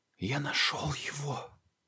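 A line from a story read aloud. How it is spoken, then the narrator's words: Whisper. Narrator (Russian): прошептал он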